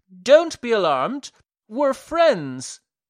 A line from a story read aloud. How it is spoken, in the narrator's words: a voice cried